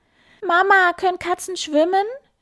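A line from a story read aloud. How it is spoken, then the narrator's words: Shouted. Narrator (German): schreit Karlchen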